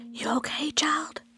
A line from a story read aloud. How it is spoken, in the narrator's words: whispered